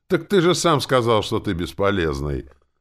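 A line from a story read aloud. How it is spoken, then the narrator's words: Laughing. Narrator (Russian): Горохов засмеялся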